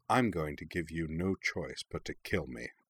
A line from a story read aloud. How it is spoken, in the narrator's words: Katara smiled coldly at him, baring bloody teeth, told him flatly